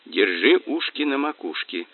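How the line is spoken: Quiet warning. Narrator (Russian): тихо сказал Мазур

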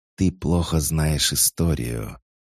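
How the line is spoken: Inhuman hiss, beautiful woman. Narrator (Russian): шипение, раздавшееся из уст прекраснейшей из женщин, сложно было назвать человеческим голосом

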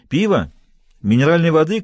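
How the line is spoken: Shouted from afar. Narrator (Russian): крикнула оттуда

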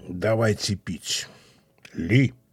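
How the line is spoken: Quiet mocking. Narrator (Russian): глумился тихо

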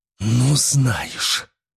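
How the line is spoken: Hoarse, forced out. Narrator (Russian): хрипло выдавила Олеся

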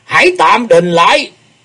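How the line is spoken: Loud hoarse voice. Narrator (Vietnamese): Tử Vong Thiền Chủ, với giọng khàn khàn, y lớn tiếng nói

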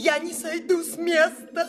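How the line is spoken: Shrill shout. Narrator (Russian): прокричала визгливо Пряхина

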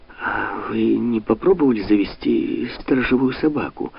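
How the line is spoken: Timid question. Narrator (Russian): робко спросила Анна Карла

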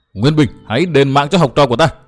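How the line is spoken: Woman shouting. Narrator (Vietnamese): Vừa hét, bà ta

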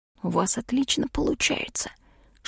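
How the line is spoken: Whisper. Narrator (Russian): шепнул лорд

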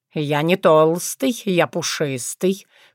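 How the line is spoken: Snort. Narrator (Russian): фыркнул Тявин

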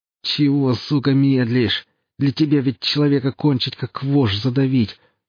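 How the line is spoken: Groan. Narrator (Russian): простонал саранча

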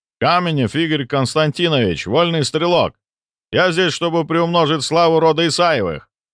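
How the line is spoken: Loud shout. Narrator (Russian): громко крикнул мужчина

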